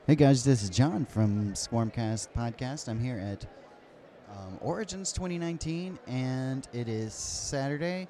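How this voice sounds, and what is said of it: Crackly voice. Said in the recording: “my voice is a little bit crackly”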